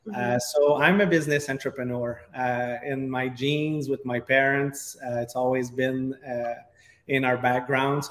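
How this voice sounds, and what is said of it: Strong Quebec French accent. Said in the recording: “As you could hear with my accent, I have a big French accent from all the way up Quebec, Canada.”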